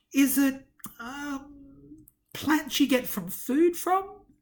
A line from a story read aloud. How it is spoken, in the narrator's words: he asked hesitantly